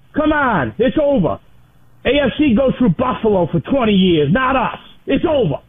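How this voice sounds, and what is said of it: Rhode Island accent. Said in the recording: “it sounds like a little bit of a Rhode Island accent there. I'm not so much picking up the Massachusetts Boston vibe. That's a little more south.”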